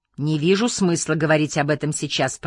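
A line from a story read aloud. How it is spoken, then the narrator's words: Grumbling, worried. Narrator (Russian): проворчал я, боясь, что обсуждение моих крошечных заработков затянется на целый час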